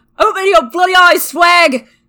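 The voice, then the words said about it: Bad strained British accent. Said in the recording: “with a terrible British accent, with no small amount of strain”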